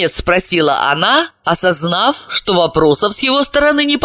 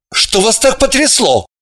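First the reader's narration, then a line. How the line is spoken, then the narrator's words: Irritated inquiry. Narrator (Russian): Раздраженно осведомился Орлов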